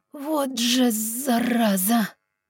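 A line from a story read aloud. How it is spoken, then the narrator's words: Pained hiss. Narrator (Russian): болезненно прошипел пострадавший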